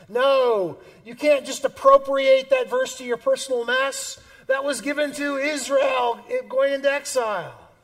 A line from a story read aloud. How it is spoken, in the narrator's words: The midwit screams